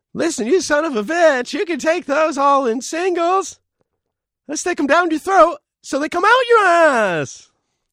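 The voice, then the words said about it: Imitates another person's voice. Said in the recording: “So you would do more of a Jerry Seinfeld impersonation ... It sounded like Seinfeld's in the room with us.”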